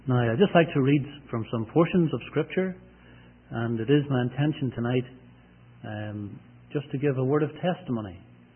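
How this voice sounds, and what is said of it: Northern Irish accent. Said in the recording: “I do bring greetings from Northern Ireland ... I hope you'll understand my accent.”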